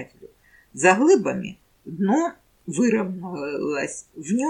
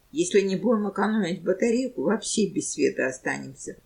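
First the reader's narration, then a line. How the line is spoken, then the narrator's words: Calm reply. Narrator (Russian): спокойно ответил швейцар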